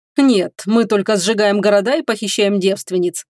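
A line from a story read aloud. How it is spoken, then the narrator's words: Lord's chuckle. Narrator (Russian): хохотнул владыка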